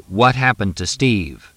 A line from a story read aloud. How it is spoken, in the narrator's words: Fletch said firmly